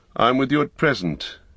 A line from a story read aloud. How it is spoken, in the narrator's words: said Gandalf